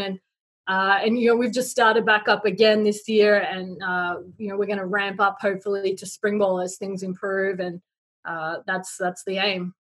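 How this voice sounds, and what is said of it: Non-American accent. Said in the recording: “caught your accent by now. And it's not something you always hear with American football coaches”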